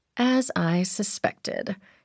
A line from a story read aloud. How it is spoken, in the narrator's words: she murmured